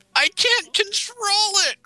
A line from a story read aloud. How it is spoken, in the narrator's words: cried Rarity